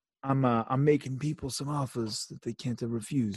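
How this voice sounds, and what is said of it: Bad Italian mobster impression. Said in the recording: “that's a really bad impersonation... That was me not being Italian”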